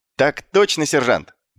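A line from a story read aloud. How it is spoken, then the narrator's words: Brisk report. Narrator (Russian): бодро отрапортовал он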